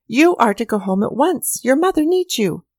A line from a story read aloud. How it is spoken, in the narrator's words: cried a voice from the side of the field